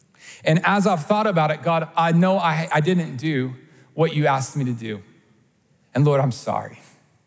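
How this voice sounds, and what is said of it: Emotional voice. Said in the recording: “getting emotional”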